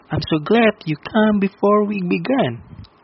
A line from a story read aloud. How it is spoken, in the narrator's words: said Nan cheerfully